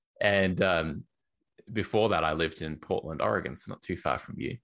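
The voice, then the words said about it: Australian accent. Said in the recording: “I used to live in Melbourne in Australia, in case you can't tell by my accent”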